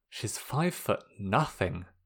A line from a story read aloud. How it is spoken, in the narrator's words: Sokka muttered